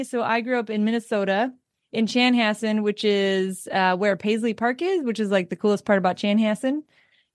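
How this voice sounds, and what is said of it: Mixed Minnesota accent with southern touches. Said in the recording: “that's how I get the weirdest accent with the y'all thrown in there”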